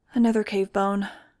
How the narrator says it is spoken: I sighed

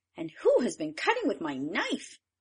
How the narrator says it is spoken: The sixth cried

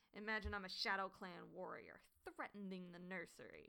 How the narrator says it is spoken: she growled

